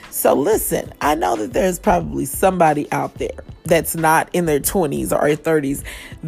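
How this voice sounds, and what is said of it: Hoarse, fading voice. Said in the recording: “I don't know what's going on with my voice. Suddenly it's trying to leave me ... I'm losing my voice a little bit”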